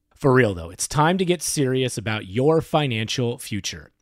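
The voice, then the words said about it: Serious voice. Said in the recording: “in my serious voice.”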